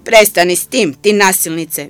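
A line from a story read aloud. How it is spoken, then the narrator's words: Shouted. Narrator (Croatian): viknula je Seka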